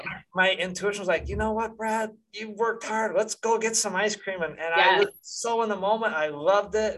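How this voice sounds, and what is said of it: Excited, animated voice. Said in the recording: “you can see my voice is changing. I'm getting excited.”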